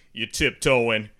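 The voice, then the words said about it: Imitates another person's voice. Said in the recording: “That's a pretty good voice impersonation.”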